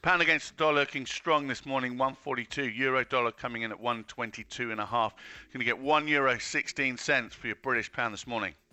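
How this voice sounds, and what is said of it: Tired, matter-of-fact voice. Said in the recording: “Very matter of fact this morning. ... You sound a bit tired”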